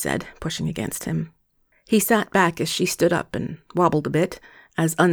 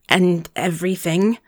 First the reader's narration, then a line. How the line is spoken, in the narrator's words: He laughed softly